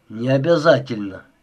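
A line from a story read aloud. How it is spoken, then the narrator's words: Grumbling. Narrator (Russian): проворчал Маград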